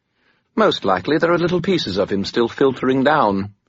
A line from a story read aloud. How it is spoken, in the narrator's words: Bob said brightly